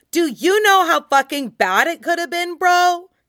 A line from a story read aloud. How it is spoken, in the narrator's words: would shout